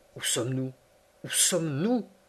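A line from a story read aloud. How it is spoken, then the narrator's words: Repeating in half-voice. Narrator (French): répétais-je à mi-voix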